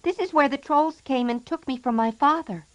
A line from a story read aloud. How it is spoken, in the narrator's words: cried the little boy